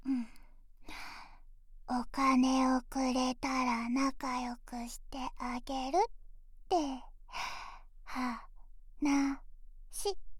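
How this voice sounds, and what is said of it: Whispering. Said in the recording (Japanese): “ささやかれても”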